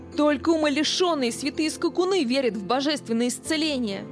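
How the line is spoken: Shouted. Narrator (Russian): закричал он

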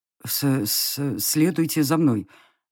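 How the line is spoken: Unsure, fat man. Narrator (Russian): неуверенно выдал толстяк

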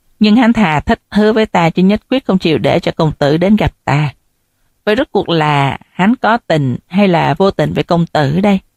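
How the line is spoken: Sighing reply. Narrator (Vietnamese): Nữ nhân nọ thở dài đáp

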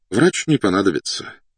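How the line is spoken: Sighing. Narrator (Russian): вздохнул подполковник

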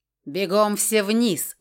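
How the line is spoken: One-eyed man barks. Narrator (Russian): рявкнул одноглазый белый

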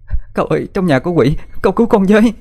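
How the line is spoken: Crying. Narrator (Vietnamese): Cô khóc lóc nói

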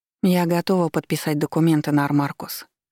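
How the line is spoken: Calm speech. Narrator (Russian): сказала спокойно

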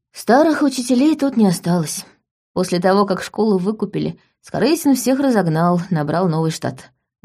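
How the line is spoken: Sigh. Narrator (Russian): вздохнула Саша

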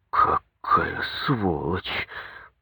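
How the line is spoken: Through gritted teeth. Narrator (Russian): процедил сквозь зубы бригадир

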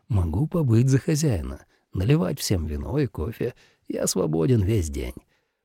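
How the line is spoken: Whispered. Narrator (Russian): Шалахан шепнув

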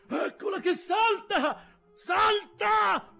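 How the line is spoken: Shout. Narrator (Italian): fu il grido

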